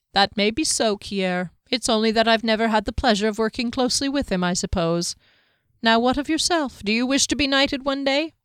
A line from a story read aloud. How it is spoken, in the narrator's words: Kier laughed